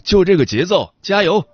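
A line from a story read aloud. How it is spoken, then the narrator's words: Sudden shout. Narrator (Chinese): 突然有个人在我身边喊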